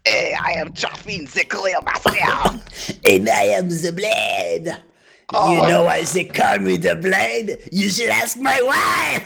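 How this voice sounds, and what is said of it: Outrageous put-on French accent. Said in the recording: “our new character voices are outrageous French accents.”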